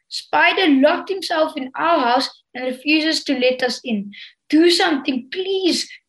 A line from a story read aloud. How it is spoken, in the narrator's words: cried Bo